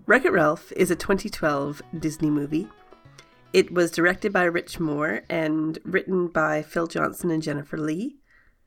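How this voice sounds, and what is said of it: Voice affected by a cold. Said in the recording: “I have a bit of a cold, so sorry about the voice”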